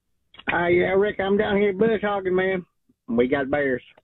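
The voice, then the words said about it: Bad impression of a radio co-host. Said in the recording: “It's the worst Gary. That's the worst Gary impression that there's ever been. ... I wasn't sure who it was supposed to be.”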